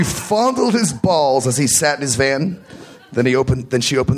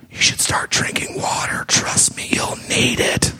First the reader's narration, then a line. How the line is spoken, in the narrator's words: whispered in her ear